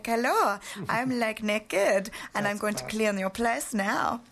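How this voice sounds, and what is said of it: Poor put-on French accent. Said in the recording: “I can't do a very good French accent as you guys can all hear ... So I didn't have to pretend I have an accent.”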